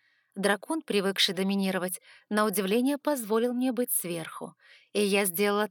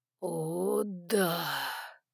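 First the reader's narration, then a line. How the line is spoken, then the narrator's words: Long exhale. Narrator (Russian): Протяжно выдохнул Саймон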